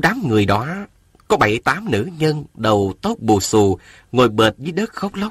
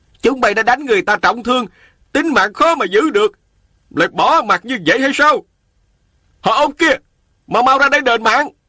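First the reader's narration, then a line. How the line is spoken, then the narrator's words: Crowd shouting loudly. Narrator (Vietnamese): mấy trăm nông dân lớn tiếng la lối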